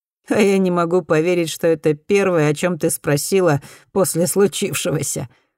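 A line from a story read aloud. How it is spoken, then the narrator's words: Laughing. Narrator (Russian): засмеялся Эдди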